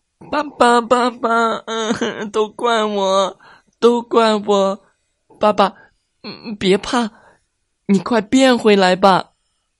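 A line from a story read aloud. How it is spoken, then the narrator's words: Sobbing loudly. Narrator (Chinese): 卡卡大哭道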